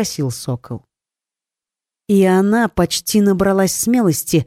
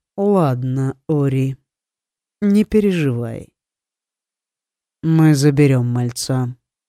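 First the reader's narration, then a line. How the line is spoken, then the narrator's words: Calm tone. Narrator (Russian): спокойным тоном сообщил Лит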